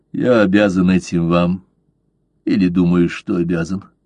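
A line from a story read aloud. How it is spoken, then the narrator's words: Quiet reply. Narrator (Russian): тихо ответил Блад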